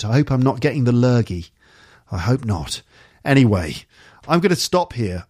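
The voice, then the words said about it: Tired voice, tight throat. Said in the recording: “I'm too tired. Can you hear it in my voice? Got a bit of a tight throat.”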